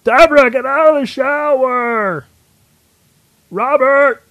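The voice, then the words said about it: Imitates another person's voice, Kermit-like. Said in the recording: “Let's try my Ray Ramone impression. ... that's your Ray Romano. ... it sounds like the child of Ray Romano and Kermit the Frog.”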